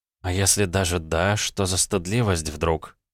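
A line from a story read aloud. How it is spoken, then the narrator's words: Heavy sigh. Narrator (Russian): Кейт тяжело вздохнула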